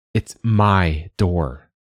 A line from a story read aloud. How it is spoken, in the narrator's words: she said crossly